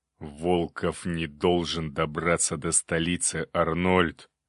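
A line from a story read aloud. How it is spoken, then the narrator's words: Through gritted teeth. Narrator (Russian): процедил граф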